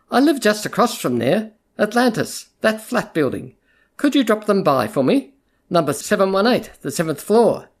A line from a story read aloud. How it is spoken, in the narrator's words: say, in the kindly tone used for an obliging underling